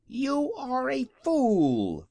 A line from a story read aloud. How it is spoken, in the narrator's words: exclaimed